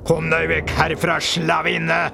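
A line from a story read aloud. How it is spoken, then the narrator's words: Very loud roar. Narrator (Norwegian): brøler han så høyt at Pysa ramler bakover i ren forskrekkelse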